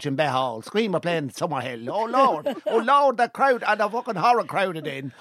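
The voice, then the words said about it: Irish west-of-Ireland accent. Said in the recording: “I could wrap myself in that accent ... Now the Mayo accent, just and start and stop ... That's more of a Galway accent.”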